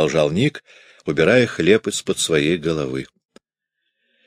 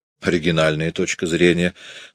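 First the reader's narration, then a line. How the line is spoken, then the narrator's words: Surprised exclamation. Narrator (Russian): с удивлением воскликнул Ник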